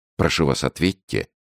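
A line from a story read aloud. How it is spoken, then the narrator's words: Calm insistence. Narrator (Russian): спокойно настаивал Рауль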